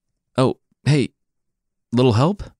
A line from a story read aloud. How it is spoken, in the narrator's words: Cucullin cried out